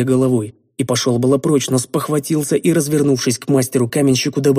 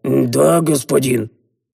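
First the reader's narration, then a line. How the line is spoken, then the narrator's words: Dull, lifeless voice. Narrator (Russian): Потухшим голосом ответил Древен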